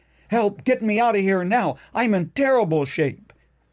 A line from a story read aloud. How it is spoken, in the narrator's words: he cried out